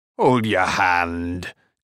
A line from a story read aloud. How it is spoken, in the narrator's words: chuckled